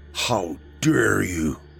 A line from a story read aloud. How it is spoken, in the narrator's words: He muttered through foamy lips